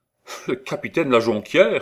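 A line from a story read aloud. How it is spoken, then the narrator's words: Exclaiming. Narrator (French): s'écria Gaston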